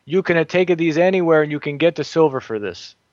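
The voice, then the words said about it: Imitated Sicilian accent. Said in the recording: “I'm doing his sort of Sicilian accent there.”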